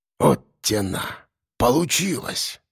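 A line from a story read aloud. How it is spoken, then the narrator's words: Breathed out. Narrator (Russian): выдохнул Ефим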